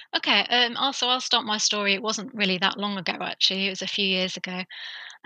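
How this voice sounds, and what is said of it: British English accent. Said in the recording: “my very Queen's English, my British accent? ... Queen's English ... is that like an English accent?”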